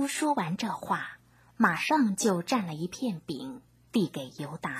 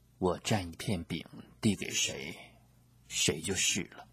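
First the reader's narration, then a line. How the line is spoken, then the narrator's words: Quiet reply. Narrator (Chinese): 耶稣小声地回答说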